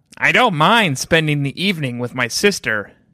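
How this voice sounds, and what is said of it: Put-on character voice. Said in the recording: “I'll do it in my Janine voice.”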